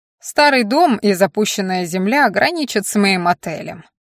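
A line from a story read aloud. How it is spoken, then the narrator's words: Displeased tone. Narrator (Russian): таким же недовольным тоном сообщил он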